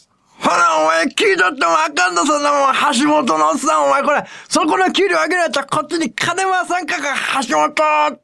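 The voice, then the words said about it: Imitates an old Osaka man. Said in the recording (Japanese): “モノマネをずっとやってたんですよ ... おっさんから行こうか、大阪の ... っていう感じのおっさんがね”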